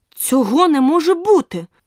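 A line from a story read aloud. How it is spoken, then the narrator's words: Indignant exclamation. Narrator (Ukrainian): обурено вигукнула Аліса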